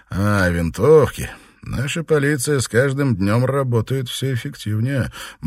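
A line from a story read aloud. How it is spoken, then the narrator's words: Grim smirk. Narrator (Russian): мрачно усмехнулся он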